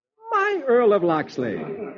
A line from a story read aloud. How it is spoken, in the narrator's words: Marian throws her arms around him, exclaiming